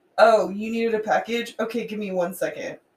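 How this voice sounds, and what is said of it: Mean, rude, curt voice. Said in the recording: “my regular bitchy voice ... You sound like a thug ... Like, really mean.”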